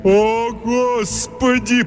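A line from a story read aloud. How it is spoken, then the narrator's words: Moaning. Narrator (Russian): простонал Тримбл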